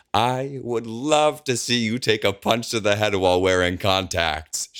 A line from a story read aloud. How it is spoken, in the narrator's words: she bellows